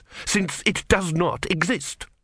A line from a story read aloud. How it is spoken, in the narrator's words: snapped Vorbis